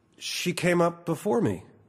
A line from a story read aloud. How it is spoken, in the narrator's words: I said